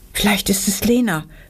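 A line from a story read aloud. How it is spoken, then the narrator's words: Horrified whisper. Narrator (German): wisperte Anna entsetzt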